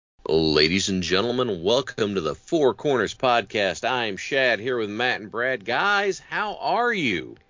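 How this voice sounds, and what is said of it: Raspy, congested voice. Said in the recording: “I smoked a pack of cigarettes before I did the intro voice ... I have a little bit of a sinus infection going”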